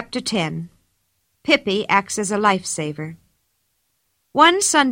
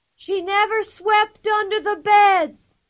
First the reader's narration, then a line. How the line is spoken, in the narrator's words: Pippi from far off, yelling at the top of her lungs